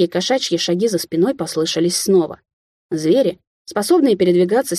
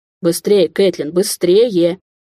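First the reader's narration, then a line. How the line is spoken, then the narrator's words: Encouraging. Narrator (Russian): Подбадривал он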